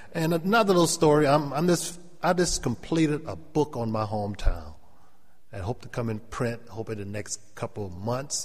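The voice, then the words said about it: Gullah Geechee accent. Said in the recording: “that's why we talk funny ... I still have my Gullah or my Geechee accent.”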